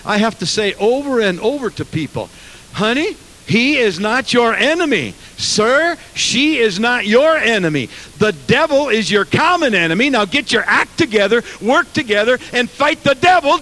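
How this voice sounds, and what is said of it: Preaching tone of voice. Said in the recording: “That's not my tone of voice when we're in my office talking to people. But I'm preaching now.”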